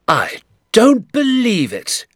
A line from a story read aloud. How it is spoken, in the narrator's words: cried